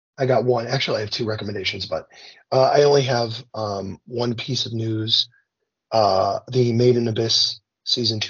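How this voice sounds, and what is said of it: Hoarse, worn-out voice. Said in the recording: “I can't sing right now. My voice is gone.”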